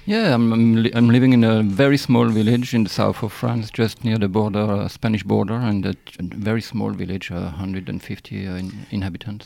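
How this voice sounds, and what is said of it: French accent. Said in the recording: “that accent ... this accent ... the French accent”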